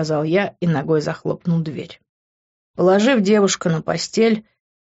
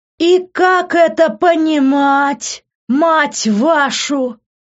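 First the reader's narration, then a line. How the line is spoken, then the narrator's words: Deafeningly loud voice. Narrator (Russian): До дурения громкий голос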